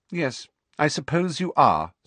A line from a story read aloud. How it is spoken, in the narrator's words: said Hermione coldly